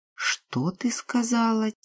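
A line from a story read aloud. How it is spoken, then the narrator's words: Quiet question. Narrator (Russian): тихо спросила Ирма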